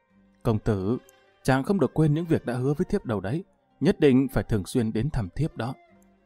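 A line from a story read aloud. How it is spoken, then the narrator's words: Tender, soft voice. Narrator (Vietnamese): Tần Tiên Nhi dịu dàng nhìn hắn khẽ nói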